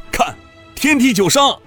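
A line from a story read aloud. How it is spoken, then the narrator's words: Someone shouting. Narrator (Chinese): 不知是谁，喊了一声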